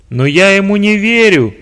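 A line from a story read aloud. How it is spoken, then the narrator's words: Shouting. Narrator (Russian): прокричал начальник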